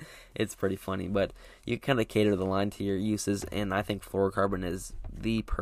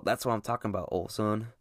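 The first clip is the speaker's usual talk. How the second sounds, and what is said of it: Put-on southern drawl. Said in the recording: “little southern drawl”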